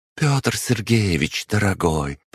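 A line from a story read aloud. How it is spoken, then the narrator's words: Cooing. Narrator (Russian): проворковала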